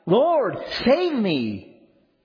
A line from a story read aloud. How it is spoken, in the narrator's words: He cried out